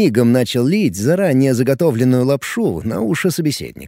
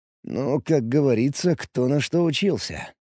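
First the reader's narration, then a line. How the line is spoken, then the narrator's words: Grumbling mutter. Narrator (Russian): пробурчал я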